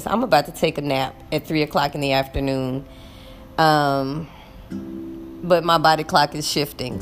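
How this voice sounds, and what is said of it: Tired, fatigued voice. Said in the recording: “hear the fatigue in my voice, that's because there is fatigue in my voice”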